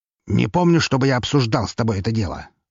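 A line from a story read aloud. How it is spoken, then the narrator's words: Irritated, curt. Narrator (Russian): раздраженно бросил он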